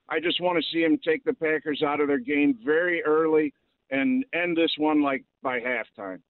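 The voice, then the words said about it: Speaks with a regional accent. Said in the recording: “God, I love this accent.”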